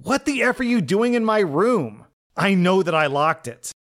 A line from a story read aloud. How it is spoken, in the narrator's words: yelled